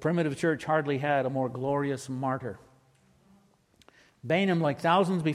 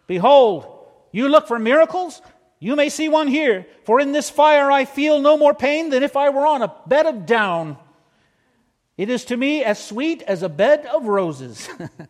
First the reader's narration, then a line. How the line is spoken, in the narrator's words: he exclaimed